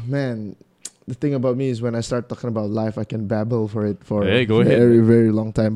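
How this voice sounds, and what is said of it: Hoarse, strained voice. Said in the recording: “My voice is a bit bad at the current moment ... went all out on the singing at the bar ... So I kind of lost my voice.”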